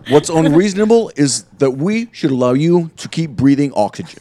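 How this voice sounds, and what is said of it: Imitates another person's voice. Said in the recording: “That was good, bud. ... That's better than your other accents.”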